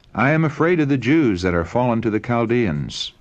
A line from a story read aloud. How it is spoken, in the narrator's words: the king replied